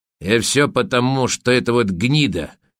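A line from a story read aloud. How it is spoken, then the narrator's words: Angry. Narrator (Russian): масложим зло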